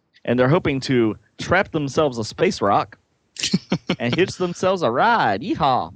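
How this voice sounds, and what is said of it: Put-on Southern accent. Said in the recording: “That sounds very Southern ... My Southern accent really only comes out when I've had a few drinks.”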